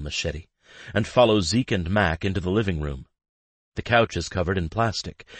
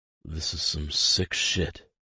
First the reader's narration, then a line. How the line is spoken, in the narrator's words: Zeke mutters